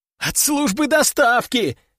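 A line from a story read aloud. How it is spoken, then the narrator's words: Howl. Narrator (Russian): взвыл тот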